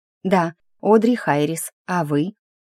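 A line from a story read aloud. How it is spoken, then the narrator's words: Drawl. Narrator (Russian): Протянула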